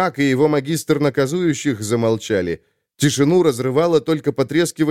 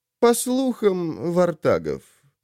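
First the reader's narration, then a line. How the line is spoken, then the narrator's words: Lazy reply. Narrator (Russian): лениво ответил Бримс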